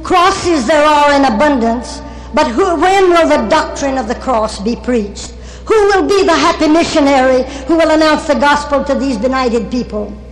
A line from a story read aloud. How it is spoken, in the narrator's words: Henry Martin had exclaimed